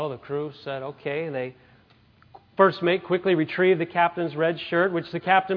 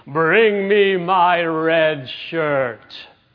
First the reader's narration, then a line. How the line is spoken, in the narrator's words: the captain bellowed to his first mate